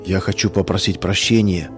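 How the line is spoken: Barely audible. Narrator (Russian): чуть слышно проговорил Саша

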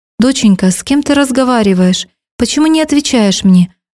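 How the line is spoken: Bewildered father. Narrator (Russian): растерянно повторял отец

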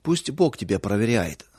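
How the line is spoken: Dry reply. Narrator (Russian): сухо ответил Павел

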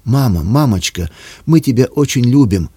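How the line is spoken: Shout in breaking voice. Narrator (Russian): Срывающимся голосом крикнула она

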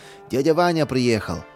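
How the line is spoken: Joyful exclamation. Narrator (Russian): обрадовался он

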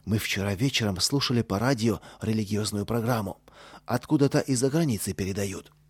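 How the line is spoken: Low voice. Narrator (Russian): сказал вполголоса

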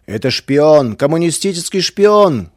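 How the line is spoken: Furious shouting, crowd. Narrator (Russian): кричали некоторые яростные защитники православия

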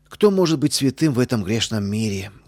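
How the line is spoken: Deep sigh, justifying herself. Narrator (Russian): глубоко вздохнула она, оправдываясь

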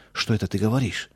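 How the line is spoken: Frightened interruption. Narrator (Russian): Амзель испуганно прервал я

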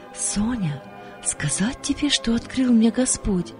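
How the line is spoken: Quiet calling friend. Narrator (Russian): подруга тихо позвала

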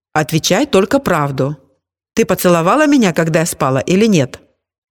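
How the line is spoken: Agitated question. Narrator (Russian): Валя взволнованно спросила

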